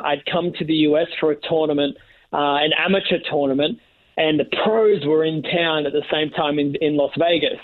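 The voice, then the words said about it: Speaker's own noticeable accent. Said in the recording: “he heard my accent”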